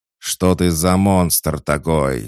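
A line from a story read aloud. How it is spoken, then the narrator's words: Roaring. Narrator (Russian): взревел Гор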